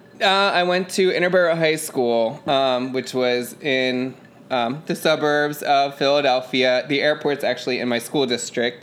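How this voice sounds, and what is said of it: Delaware County Philadelphia-area accent. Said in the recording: “In case you couldn't tell by the accent... I grew up in Delco.”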